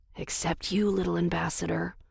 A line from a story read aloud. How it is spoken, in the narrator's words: I whispered to Daphne